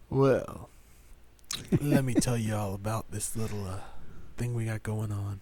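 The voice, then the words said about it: Drunk-sounding sexy voice. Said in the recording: “drunk, sexy voice”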